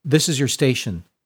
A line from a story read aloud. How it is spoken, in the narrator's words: said Sister Restraint